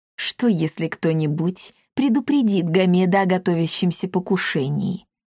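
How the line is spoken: Quiet. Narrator (Russian): тихо произнес Эхо

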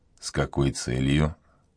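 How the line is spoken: Quiet, startled question. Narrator (Russian): Монбар вздрогнул и тихо спросил

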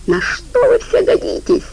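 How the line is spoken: Shrill squeal. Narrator (Russian): Жопа взвизгнул

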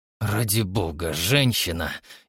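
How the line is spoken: Nearly growling. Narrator (Russian): едва не зарычал

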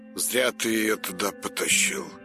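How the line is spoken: Sighing. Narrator (Russian): вздохнул Большаков

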